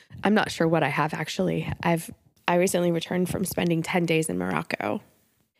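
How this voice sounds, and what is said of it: Congested voice from a cold. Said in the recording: “You likely hear in my voice that I have a little bit of a cold.”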